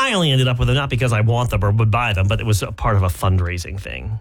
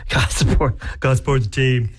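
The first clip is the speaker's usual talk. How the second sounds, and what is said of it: Imitates a TV character's voice. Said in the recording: “That's my putty impression from Seinfeld.”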